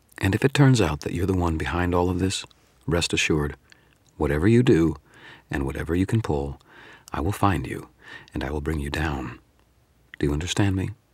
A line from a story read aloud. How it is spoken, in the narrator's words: said, in a perfectly even tone